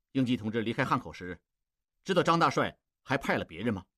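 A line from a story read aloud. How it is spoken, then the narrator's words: Cold question. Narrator (Chinese): 蒋作斌冷冷地问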